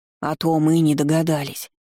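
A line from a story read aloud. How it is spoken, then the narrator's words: Grumbling. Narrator (Russian): проворчала Лаша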